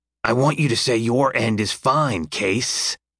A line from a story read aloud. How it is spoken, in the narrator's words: Lincoln growls